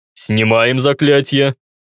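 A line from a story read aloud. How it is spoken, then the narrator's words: Gloomy bass question, guard. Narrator (Russian): спросил охранник мрачным басом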